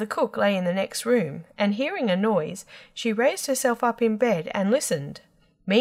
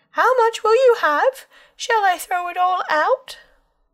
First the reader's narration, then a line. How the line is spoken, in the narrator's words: Tom bawled again